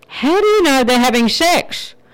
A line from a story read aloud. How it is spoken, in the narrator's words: Startled, cautiously called out